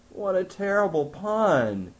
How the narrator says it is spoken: Jean groaned

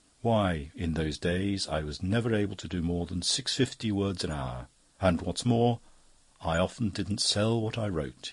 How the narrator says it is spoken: he sighed

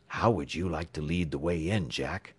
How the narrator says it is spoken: whispered the sheriff

